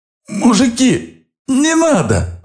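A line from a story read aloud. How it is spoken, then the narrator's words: Driver's frightened babble. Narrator (Russian): пролепетал водитель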